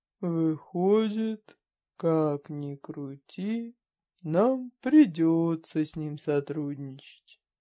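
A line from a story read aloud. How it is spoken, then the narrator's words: Resigned sigh. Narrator (Russian): обреченно вздохнул Кромов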